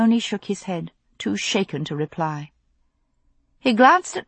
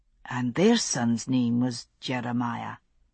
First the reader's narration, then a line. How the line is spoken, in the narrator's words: he said at last, so softly that Claire had to lean close to hear it